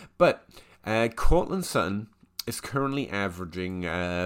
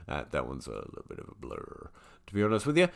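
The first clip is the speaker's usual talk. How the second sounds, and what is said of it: Suddenly deep voice. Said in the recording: “don't know why I went all deep voice there”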